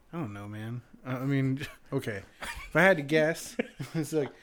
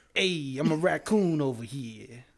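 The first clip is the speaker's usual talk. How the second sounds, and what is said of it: Put-on New York Italian accent. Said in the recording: “with like a New York Italian accent”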